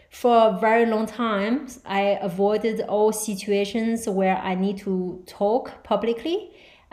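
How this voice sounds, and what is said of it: Non-native English accent. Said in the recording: “She can't even speak English without an accent... my accent has been a big issue for me... I cannot hide it”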